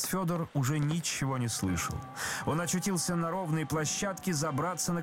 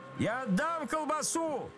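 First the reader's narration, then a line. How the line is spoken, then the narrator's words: Shouted. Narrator (Russian): закричал отец Федор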